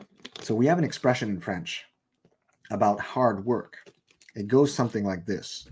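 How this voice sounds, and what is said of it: French accent in English. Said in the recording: “you guys probably noticed from my accent, that I am not a 100% purebred Anglophone or American”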